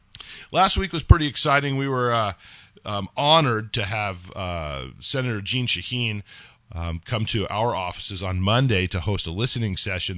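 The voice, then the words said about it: Slightly hoarse voice. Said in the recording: “apologize for my voice. There's a lot of yelling involved with the meet as well. So that's why I'm a little bit hoarse”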